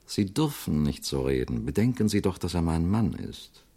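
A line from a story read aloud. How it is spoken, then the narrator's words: Silvery voice, steely undertone. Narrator (German): sagte Frau Mandeville mit ihrer silberhellen Stimme, die einen stahlharten Beiklang hatte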